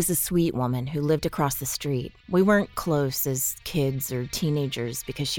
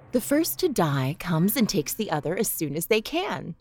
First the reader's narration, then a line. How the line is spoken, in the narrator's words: she explained to me